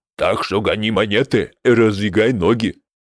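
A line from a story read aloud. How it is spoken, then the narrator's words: Barking small orc. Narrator (Russian): рявкнул мелкий орк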